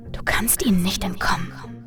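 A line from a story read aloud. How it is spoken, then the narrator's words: Echoing inner whisper. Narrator (German): flüsterte eine Stimme, die wie ein Echo in meinem Kopf klang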